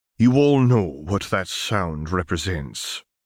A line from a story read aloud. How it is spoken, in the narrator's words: started gravely